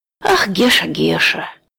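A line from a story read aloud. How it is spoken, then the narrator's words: Sad old man. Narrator (Russian): грустно сказал старичок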